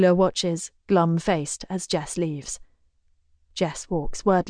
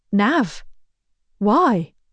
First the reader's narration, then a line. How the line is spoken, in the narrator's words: Jess stutters